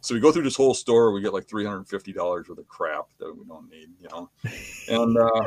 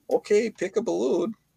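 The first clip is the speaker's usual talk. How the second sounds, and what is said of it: Impression of a young guy. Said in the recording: “your young guy impression”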